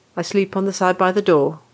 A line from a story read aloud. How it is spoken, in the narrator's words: Ronan said, his tone leaving no room for argument